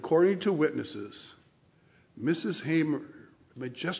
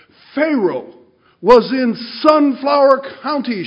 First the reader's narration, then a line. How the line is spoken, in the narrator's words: she cried